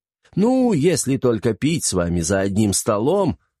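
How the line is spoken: Laughing. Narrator (Russian): рассмеялся Касмин

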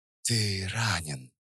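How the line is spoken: Very soft worried whisper. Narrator (Russian): прошептала она совсем тихо, и в ее голосе впервые прозвучали нотки неподдельного беспокойства и чего-то еще

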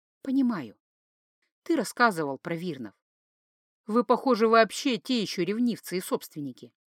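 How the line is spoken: Gentle reply. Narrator (Russian): ласково ответила

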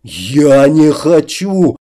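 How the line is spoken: Slurring into a growl. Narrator (Russian): попытался произнести вампир, скатываясь на невнятное рычание

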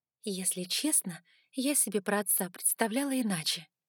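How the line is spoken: Quiet speech. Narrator (Russian): тихо проговорила

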